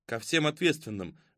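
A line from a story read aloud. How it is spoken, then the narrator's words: Gloomy. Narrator (Russian): мрачно сказал Филипп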